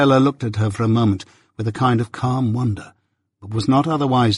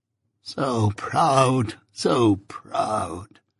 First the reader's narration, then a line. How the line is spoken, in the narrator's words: moaned Miss Havisham